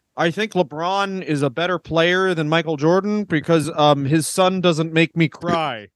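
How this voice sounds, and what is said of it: Imitates another person's voice. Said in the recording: “my impression of Scottie Pippen”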